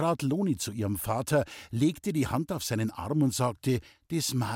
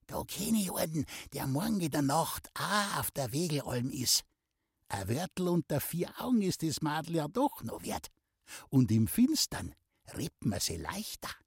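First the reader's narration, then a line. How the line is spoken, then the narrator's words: Whispering. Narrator (German): Muckel flüsterte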